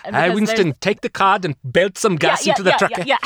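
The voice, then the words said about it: Put-on sci-fi show accent. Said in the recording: “Because of the accent. ... Because of the accent.”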